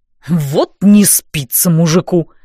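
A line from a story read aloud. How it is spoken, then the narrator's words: Snorting grunt. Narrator (Russian): хмыкнул Дан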